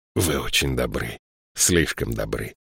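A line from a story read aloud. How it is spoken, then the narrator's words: Mumbling. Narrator (Russian): пробормотал он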